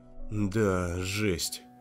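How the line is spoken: Muttering. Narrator (Russian): пробормотал

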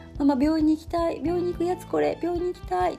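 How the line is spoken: Fussing child. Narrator (Japanese): って言ってまた騒ぎ始めた

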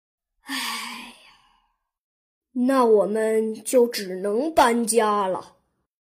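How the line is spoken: Sighing father. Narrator (Chinese): 鼠爸爸叹了一口气

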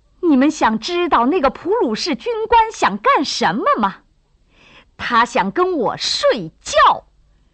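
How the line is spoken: Indignant shout. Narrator (Chinese): 他内心的愤慨再也压不下去了，他大声喊道

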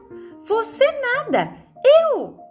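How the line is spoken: Bellow. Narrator (Portuguese): berrou Teteco

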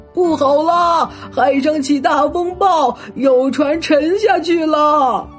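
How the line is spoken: Clamoring voices outside. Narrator (Chinese): 外面的人在叫叫嚷嚷

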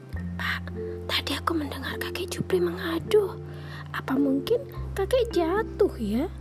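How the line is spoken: Whisper. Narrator (Indonesian): bisik Bim Bim

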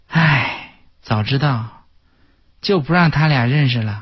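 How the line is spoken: Sighing to oneself. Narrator (Chinese): 我妹妹都不免叹气，自言自语

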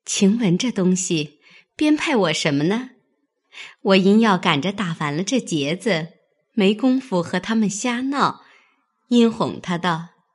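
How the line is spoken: Laughing. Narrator (Chinese): 笑道

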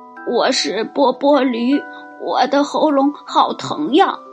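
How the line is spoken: Hoarse voice from outside. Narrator (Chinese): 一个沙哑的声音从门外传来

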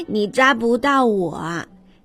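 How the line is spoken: Little bear giggling. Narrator (Chinese): 小熊咯咯笑着说

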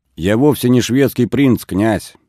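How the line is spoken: Firm and loud. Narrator (Russian): твердо и громко произнес Давид

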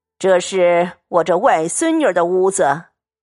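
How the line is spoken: Smiling. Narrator (Chinese): 贾母笑…道

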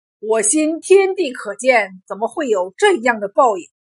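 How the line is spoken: Furious. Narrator (Chinese): 孙正吉给气坏了，怒道

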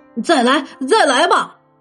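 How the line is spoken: Shouting. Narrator (Chinese): 巴克乔喊道

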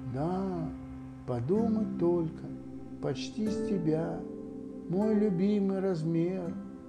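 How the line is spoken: Sad muttering. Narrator (Russian): грустно сказал ИА, ИА себе под нос

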